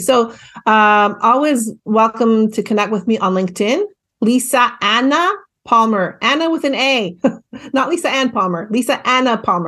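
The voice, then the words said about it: Slight Canadian accent. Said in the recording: “I have a bit of a Canadian accent”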